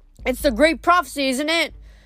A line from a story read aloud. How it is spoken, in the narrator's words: a girl called out